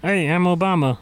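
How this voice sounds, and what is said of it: Imitates another person's voice. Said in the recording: “Can you do an Obama impression”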